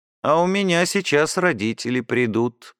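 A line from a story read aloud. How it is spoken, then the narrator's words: Gloomy female voice. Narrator (Russian): мрачно проговорила Баженова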